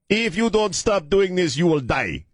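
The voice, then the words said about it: Loud put-on Nigerian or Haitian accent. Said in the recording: “I'm going to do a very racist accent. ... I don't know if he's Nigerian or Haitian. ... he has this loud voice.”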